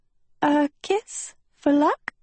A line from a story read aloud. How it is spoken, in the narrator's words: she squeaked